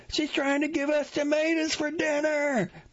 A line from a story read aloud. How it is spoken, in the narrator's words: Mary yells